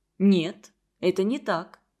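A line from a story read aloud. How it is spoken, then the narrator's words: Calm. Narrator (Russian): спокойно ответил Константин Семенович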